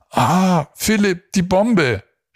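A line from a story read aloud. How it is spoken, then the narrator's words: Horrified scream. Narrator (German): schrie Tina entsetzt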